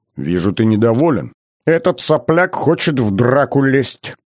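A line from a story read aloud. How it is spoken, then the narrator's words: Irritated growl. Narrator (Russian): раздраженно рыкнул Иван III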